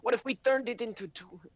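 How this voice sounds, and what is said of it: Terrible put-on accent. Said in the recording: “Oh my, that was a terrible accent ... I'm never going to try accents again unless I know that I'm good at them.”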